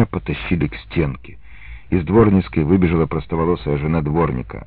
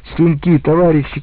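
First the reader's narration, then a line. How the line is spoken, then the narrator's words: Shouting. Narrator (Russian): кричала она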